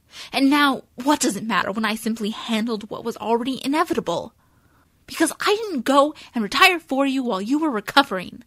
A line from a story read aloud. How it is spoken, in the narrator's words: she yells back